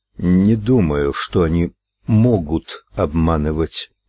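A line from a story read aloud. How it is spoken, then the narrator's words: Slow. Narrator (Russian): медленно ответил он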